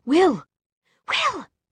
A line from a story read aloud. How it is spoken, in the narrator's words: Tessa cried